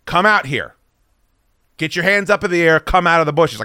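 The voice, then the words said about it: Yelling. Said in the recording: “I'm yelling this now”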